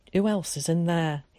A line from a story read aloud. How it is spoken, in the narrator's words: he asked